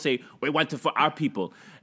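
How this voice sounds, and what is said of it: Put-on Chinese accent. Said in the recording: “That was a Chinese accent.”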